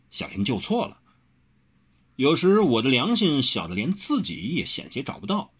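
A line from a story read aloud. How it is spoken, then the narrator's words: Teasing. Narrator (Chinese): 调笑了一句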